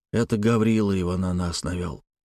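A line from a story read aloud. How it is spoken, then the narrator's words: Quiet voice. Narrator (Russian): произнес он тихим голосом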